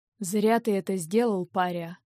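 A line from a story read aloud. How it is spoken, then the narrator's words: Quiet hoarse male voice. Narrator (Russian): произнес он тихим, хриплым голосом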